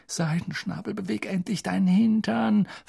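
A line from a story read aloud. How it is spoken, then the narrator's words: Pleading. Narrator (German): flehte Harry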